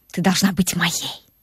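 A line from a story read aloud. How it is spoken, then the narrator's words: Passionate whisper. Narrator (Russian): шепнул страстным шепотом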